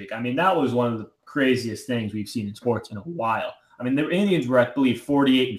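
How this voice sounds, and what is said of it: Usual voice. Nothing is said of it.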